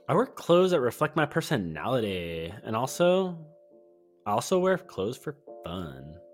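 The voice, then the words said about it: Put-on girlish voice. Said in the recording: “that voice ... That's my only girl voice.”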